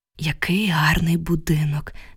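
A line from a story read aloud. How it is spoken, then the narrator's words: Sighed. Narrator (Ukrainian): зітхнула я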